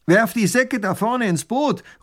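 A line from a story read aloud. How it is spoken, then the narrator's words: Called out. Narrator (German): ruft der Räuber tunlich gut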